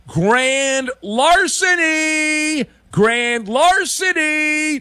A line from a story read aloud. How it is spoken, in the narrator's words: Whoever that was could have yelled